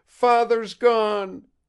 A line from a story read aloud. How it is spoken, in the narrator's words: she cried despairingly